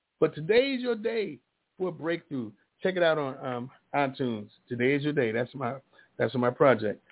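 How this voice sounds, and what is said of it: Hoarse, worn-out voice. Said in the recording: “my voice, I've been talking a little bit. My voice is gone. My singing voice is done.”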